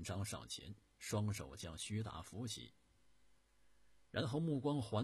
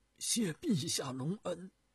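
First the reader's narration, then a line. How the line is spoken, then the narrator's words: Deeply moved, choked voice. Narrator (Chinese): 徐达感慨万分，声音哽咽地说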